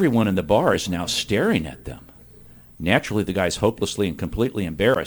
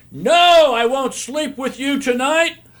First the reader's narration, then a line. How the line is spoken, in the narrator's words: she responds by yelling at the top of her lungs